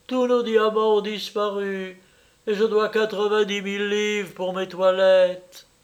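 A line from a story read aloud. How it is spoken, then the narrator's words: Exclaimed. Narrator (French): s'écria Lady Vandler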